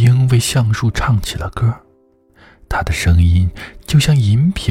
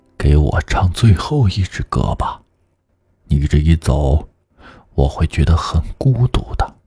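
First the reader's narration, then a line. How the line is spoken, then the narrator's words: Soft, tender. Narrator (Chinese): 因为他十分爱怜那枝上结巢的小夜莺，橡树轻声地说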